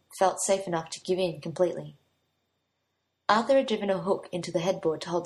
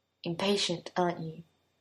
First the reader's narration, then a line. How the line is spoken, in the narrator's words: Arthur murmured